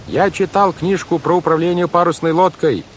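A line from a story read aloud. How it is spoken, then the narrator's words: Yelling over a hurricane. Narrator (Russian): заорал Клаус, стараясь перекричать вой урагана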